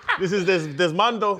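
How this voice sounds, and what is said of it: Put-on Spanish accent. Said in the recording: “throw a Spanish accent in there”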